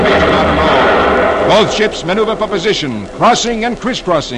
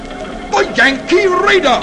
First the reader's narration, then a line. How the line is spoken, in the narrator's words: the English sea captain recognizes John Paul Jones's famous ship and exclaims